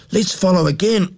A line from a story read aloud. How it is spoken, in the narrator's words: cried Jack